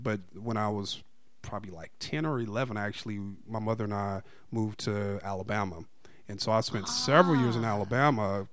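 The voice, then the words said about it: Southern American accent, a bit country. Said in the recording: “Southern accent exactly. ... when you hear me talk a little con- country”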